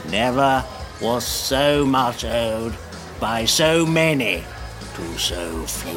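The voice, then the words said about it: Winston Churchill impression, froggy voice. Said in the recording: “What was that voice? ... Winston Churchill, man. ... I thought it was like a frog monster guy”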